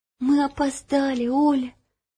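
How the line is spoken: Whispering. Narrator (Russian): прошептала Ело

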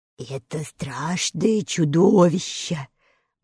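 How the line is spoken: Fearful whisper. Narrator (Russian): боязливо прошептал лев

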